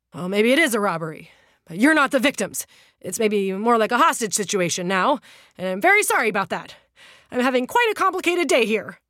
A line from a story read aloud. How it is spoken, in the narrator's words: panting